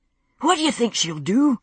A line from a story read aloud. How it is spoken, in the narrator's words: he asked, panting in my wake as I hastened up the steep slope